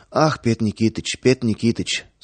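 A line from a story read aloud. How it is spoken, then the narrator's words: Rapid patter, slight lisp. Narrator (Russian): скороговоркой, слегка пришептывая, затараторил торговец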